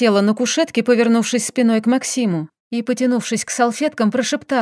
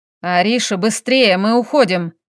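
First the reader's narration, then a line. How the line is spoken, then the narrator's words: Growled. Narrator (Russian): прорычал муж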